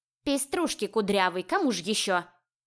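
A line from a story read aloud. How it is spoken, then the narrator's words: Cat snorting. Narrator (Russian): фыркнула киса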